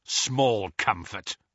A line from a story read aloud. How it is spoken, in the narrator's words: snarled Kingsley